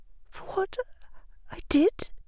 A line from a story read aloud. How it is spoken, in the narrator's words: the girl whispered